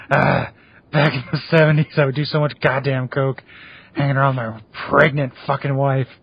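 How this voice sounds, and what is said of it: Imitates another person's voice, clownish. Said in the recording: “Nick Nolte impersonation ... my Nick Nolte sounds like Krusty the Clown too”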